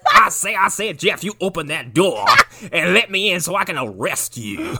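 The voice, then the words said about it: Exaggerated old-fashioned Southern US accent. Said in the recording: “this guy's accent is all over the place ... He's from 7 different parts of the South, also from 200 years ago. ... He's like Foghorn Leghorn with a fucking badge.”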